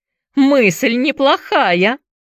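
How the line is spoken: Laughing. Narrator (Russian): засмеялся Джеймс

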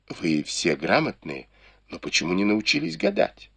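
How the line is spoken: Giggling whisper. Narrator (Russian): Фэнзе хихикнула и незаметно шепнула Тань Чун

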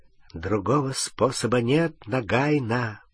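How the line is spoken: Whisper. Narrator (Russian): прошептал он

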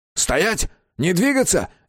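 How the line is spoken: Barked. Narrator (Russian): рявкнул Безил

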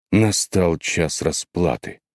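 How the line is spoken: Exclaimed. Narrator (Russian): воскликнула Миягино

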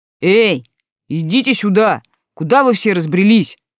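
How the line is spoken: Booming call. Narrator (Russian): прогудел он

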